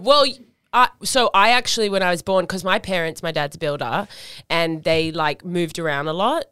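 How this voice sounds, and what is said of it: Sydney eastern suburbs Australian accent. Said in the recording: “I grew up in the eastern suburbs, as I'm sure you can tell from my accent”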